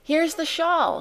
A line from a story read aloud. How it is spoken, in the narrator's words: cried